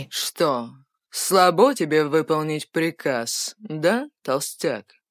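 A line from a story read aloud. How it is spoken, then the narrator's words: Cold voice. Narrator (Russian): Холодным голосом проговорил тренер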